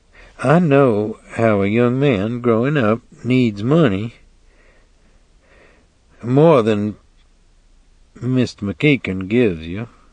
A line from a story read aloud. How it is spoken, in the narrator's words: She said, not looking at him, her voice flat, level